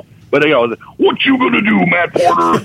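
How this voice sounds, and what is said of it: Imitates another person's voice. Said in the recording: “I'm probably better at Hulk Hogan.”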